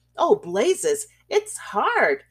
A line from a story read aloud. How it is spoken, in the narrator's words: he exclaimed, pronouncing the adjective in a peculiar manner